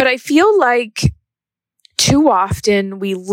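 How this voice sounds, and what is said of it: Usual voice. Nothing is said of it.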